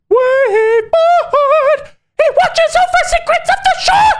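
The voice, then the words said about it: High-pitched sing-song falsetto. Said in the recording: “really high-pitched voice ... like a falsetto, like when you're singing and you're singing outside of your range ... sing-songy ... sing in falsetto”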